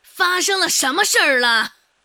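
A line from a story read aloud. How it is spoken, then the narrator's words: Loud, through walls. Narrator (Chinese): 隔着几堵墙，孟婆子的声音依旧高昂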